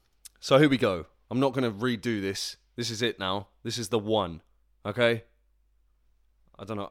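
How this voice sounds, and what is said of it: Loud, overexcited shouting. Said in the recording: “I'm overexcited ... I'm not shouting at you. I'm shouting at me.”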